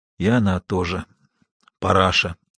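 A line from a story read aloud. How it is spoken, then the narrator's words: Muffled, dull voice. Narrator (Russian): глухо сказал Тихон Иванович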